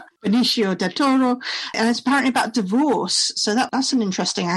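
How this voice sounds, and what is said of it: Usual voice. Nothing is said of it.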